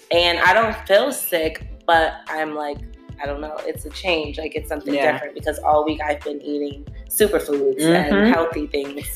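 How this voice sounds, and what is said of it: Sore, phlegmy voice. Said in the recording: “as you guys probably can hear, my voice is super sore ... I have now mucus in my throat, like phlegm”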